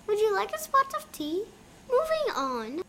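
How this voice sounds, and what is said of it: English accent. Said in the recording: “I have an English accent just like him.”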